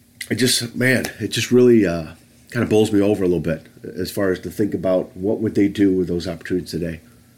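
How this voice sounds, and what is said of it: Emotional, congested voice. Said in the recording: “I'm getting emotional about this now, which is not good with a cough and a runny nose.”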